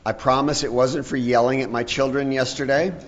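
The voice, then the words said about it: Slightly hoarse, froggy voice. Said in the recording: “I have a little bit of a frog in my throat.”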